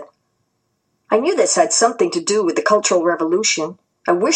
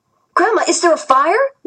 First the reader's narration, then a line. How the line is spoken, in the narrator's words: shouted anxiously